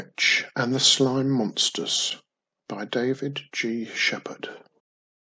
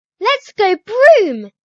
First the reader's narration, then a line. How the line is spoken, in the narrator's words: She squeals